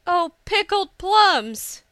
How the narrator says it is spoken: Hisa exclaimed

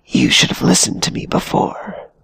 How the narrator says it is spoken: whispered the Alma

